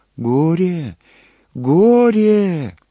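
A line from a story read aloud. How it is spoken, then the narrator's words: Thin high voice. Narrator (Russian): Отец Христофор повторил тонким голоском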